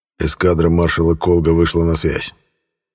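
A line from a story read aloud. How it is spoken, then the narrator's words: Angry. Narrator (Russian): зло прищурившись, произнес император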